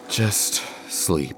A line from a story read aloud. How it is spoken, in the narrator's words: Delphine sighed, exasperated